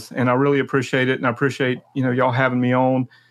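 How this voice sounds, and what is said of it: South Carolina accent. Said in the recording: “you got that South Carolina accent”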